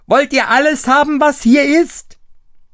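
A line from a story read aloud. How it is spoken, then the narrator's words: Screaming at full strength. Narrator (German): schrie aber gleich aus Leibeskräften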